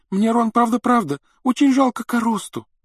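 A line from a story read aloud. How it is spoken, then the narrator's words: Sobbing. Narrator (Russian): рыдала она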